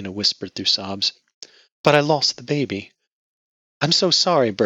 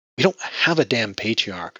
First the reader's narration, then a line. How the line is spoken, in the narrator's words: she snapped